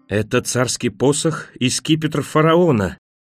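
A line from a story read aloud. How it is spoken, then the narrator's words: Frenzied, trembling, emotional shout. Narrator (Russian): выкрикнул фон Шиллер неистовым, дрожащим от нахлынувших чувств голосом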